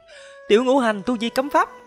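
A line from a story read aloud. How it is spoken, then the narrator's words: Panicked shriek. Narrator (Vietnamese): giống như là thấy quỷ, hoảng hốt thất thanh kêu lên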